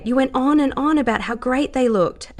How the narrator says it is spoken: Alan said excitedly, thrilled with how she had gone down the same route

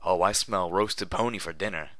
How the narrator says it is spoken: snarled the slaver

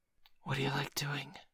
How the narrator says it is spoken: suddenly whispered

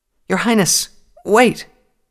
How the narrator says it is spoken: pleaded

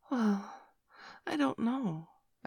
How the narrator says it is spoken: replied hesitantly

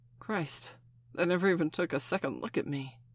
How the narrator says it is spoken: Steph gasped

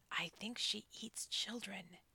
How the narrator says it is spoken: Hansel whispered

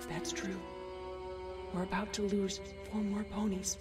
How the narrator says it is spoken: Celestia whispered in response

